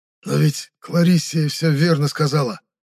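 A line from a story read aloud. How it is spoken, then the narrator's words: Hoarse rasp, spitting blood. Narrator (Russian): прохрипел я, сплевывая кровь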